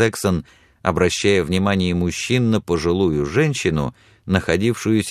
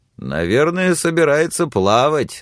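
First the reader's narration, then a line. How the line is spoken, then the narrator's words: Laughing. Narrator (Russian): засмеялся Берт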